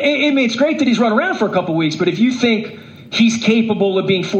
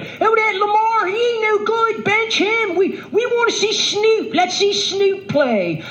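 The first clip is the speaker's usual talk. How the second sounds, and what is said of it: Put-on Baltimore accent. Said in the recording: “in the Baltimore accent”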